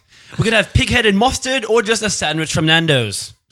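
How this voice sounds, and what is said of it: Newscaster voice with rising inflection. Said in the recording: “Why do you sound like a newscaster? ... Why do they always do that, the inflection going up?”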